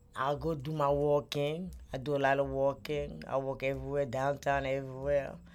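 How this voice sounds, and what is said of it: Speaks with a noticeable non-native accent. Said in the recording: “you could tell my accent ... I still got my accent. It's not as bad as some of them, but I still got it.”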